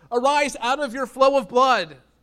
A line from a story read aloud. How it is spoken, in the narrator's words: yelling out